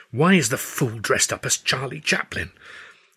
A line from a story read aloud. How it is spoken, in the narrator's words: I hissed